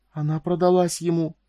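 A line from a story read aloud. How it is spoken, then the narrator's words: Trembling whisper, grief and disgust. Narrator (Russian): выдавила шепотом Друшникова, чей голос дрожал от горя и отвращения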